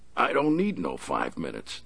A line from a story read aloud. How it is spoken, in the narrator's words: the big man said, chuckling inwardly